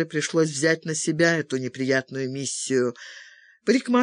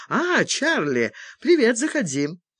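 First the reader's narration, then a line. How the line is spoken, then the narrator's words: Joyful exclamation. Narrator (Russian): радостно воскликнула Мэгги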